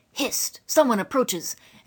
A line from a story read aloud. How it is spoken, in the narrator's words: he cried